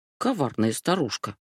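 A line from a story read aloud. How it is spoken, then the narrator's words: Mutter. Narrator (Russian): пробормотала Сети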